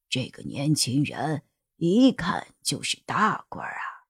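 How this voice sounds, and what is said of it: Quiet, hushed speech. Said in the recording (Chinese): “小声的对秦主任说着”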